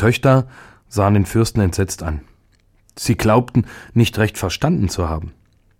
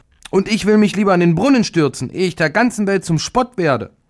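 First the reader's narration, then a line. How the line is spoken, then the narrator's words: Indignant outcry. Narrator (German): die mittlere rief entrüstet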